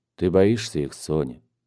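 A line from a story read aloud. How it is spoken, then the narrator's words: Soft question. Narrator (Russian): спросил мягко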